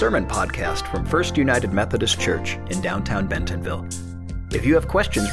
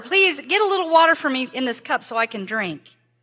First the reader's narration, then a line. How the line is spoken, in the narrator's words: He called out to her